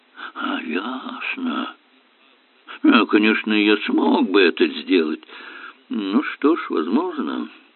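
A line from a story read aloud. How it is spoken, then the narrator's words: Sigh. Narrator (Russian): вздохнул Эллери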